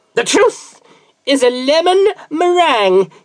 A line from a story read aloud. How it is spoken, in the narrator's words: he yelled at the top of his voice